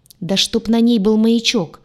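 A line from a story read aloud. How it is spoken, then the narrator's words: Growling. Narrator (Russian): рыкнул Урак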